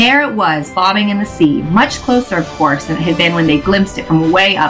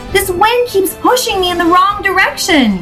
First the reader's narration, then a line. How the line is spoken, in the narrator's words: yelled Daisy, scrunching up her face with effort